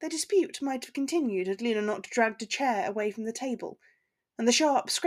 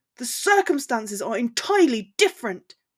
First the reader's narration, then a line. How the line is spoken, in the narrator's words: shouted